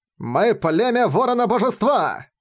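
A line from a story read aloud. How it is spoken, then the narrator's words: Thousands roaring in chorus. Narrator (Russian): Хором взревели тысячи воинов племени Ворона-Божества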